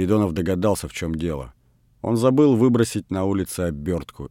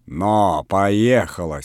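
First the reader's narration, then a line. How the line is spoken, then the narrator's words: Angry speech. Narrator (Russian): сердито сказал Передонов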